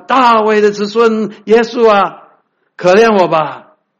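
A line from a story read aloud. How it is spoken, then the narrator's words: Shouting. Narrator (Chinese): 他听见是拿撒勒的耶稣，就喊着说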